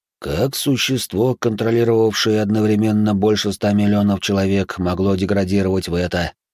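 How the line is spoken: Mumbling. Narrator (Russian): пробормотал ректор

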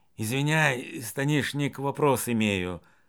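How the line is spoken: Quiet question. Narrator (Russian): Дементий тихо спросил

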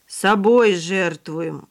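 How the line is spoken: Gloomy son's reply. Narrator (Russian): мрачно ответил сынок

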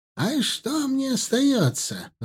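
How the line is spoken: Bitter exclamation. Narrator (Russian): с горечью воскликнула та

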